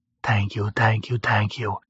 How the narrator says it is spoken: I breathed to Fothanan

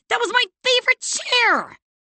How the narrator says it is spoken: Claire shrieked

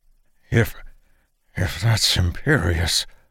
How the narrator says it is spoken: Blackheart wheezed out

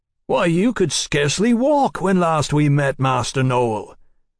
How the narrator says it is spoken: Mallory boomed heartily

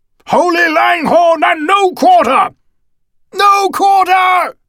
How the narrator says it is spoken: his company bellowed

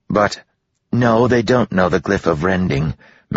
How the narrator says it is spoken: Melody said quickly

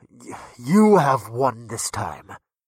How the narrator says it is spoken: the giant muttered after several long moments filled with silence

